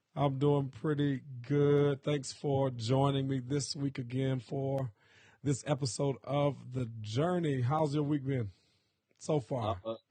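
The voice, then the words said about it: Hoarse voice. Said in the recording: “excuse my voice today. I'm a little hoarse”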